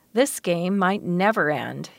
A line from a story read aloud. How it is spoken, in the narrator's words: would groan